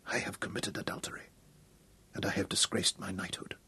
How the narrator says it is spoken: Hal whispered

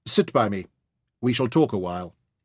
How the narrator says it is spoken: Osman said curtly

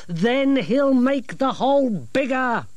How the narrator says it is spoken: snapped Grimmer

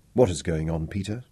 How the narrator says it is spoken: he lowered his voice

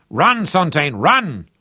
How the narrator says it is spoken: bellowed

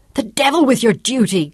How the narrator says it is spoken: Claudia shouted back furiously

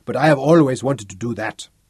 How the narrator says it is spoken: roared

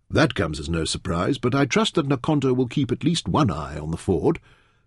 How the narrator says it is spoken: Taita remarked dryly

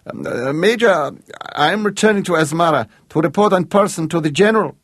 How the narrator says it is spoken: shouted Aldobelli

